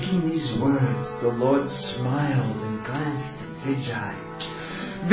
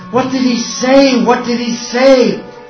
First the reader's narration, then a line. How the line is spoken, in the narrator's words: Suddenly, Vijay, he began to scream